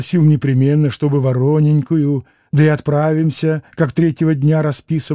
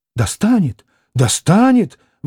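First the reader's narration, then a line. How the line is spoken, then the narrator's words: Exclaiming. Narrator (Russian): воскликнул Алеша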